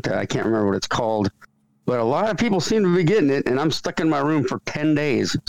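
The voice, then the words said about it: Sick-sounding voice. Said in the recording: “I've been better. You might even hear it in my voice ... I caught this weird sickness that's going around ... Flu”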